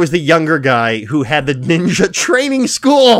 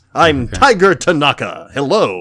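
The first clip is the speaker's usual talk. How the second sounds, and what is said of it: Superhero-style dubbed voice of Tiger Tanaka. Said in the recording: “whoever is doing his dub is doing the superhero voice.”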